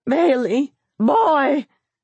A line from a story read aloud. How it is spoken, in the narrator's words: the grandmother called in a tragic voice